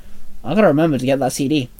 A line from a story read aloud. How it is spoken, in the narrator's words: Dante muttered